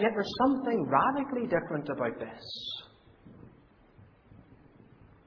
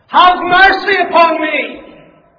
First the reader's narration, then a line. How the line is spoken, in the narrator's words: Shouting his head off